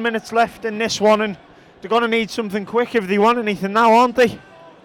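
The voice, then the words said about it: Croaky, hoarse voice. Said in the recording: “I'm losing my voice ... You've got a little croaky voice”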